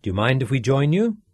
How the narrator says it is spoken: asked

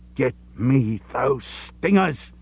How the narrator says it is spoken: he hissed

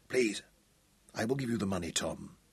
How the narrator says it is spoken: he whispered

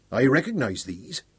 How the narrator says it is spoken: Big Daniel chuckled

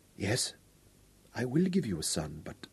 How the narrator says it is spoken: she sighed and whispered

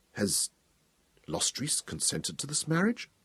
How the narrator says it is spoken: he sighed and asked quietly

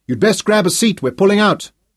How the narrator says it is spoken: assured urgently

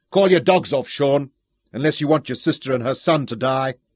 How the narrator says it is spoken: raising his voice again

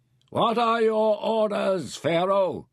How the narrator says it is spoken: Pren shouted

